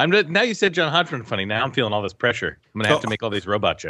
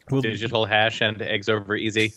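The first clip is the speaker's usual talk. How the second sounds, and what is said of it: Robot voice. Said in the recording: “It's my impression of a robot.”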